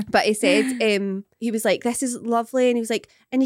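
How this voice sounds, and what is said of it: Usual voice. Nothing is said of it.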